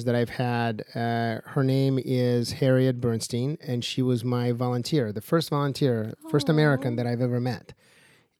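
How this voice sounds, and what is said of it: Speaks with a foreign accent. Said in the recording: “some of you might hear my accent”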